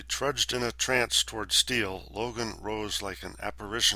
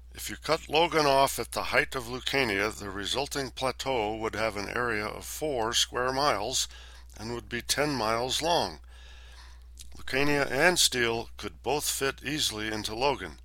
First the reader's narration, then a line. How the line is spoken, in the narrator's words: Ever the intellectual, Halpern intoned